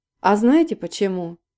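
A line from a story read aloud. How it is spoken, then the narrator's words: Lazy question. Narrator (Russian): лениво спросил он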